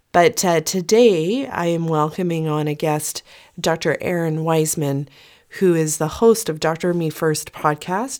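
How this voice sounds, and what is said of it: Slightly croaky voice. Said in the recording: “my voice is a little bit croaky ... I've got my son's cold.”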